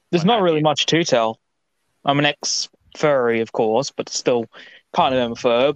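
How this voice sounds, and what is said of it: Australian accent. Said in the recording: “as you can tell by the accent, I'm bloody Australian”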